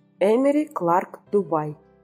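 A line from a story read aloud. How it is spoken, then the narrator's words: Gentle. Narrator (Russian): мягко сказала озеру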